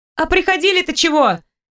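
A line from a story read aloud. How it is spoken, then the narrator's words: Furtive shout. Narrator (Russian): крикнула воровато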